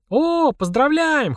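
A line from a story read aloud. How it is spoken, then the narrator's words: Girls squealing in chorus. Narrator (Russian): хором запищали девочки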